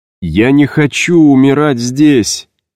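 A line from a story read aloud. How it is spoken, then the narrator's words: Shouting. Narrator (Russian): закричал я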